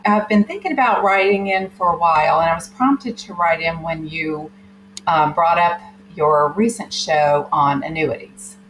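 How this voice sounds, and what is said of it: Southern American accent. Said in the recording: “you'll tell from her accent she's from the South.”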